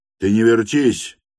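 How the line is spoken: Shouted. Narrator (Russian): крикнул он студентке

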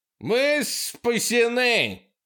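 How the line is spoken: Yelling. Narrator (Russian): заорал Курт

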